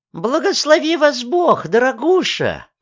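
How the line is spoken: Cooing. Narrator (Russian): проворковала она

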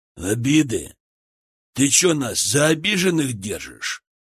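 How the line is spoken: Gruff male question. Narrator (Russian): Грубым голосом поинтересовался мужчина

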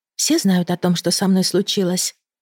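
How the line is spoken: Quiet question. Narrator (Russian): спросила негромко

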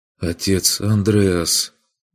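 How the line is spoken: Muffled, hollow voice. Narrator (Russian): проговорил он глухо

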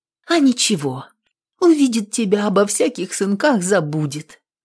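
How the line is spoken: Tender, affectionate. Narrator (Russian): ласково говорила она дочке

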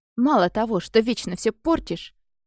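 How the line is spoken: Growling. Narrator (Russian): рычала

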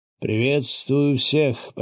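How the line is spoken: Lecturer's trained voice proclaiming. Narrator (Russian): поставленным голосом провозгласил лектор

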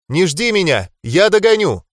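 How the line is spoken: Shouting young woman. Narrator (Russian): крикнула девушка

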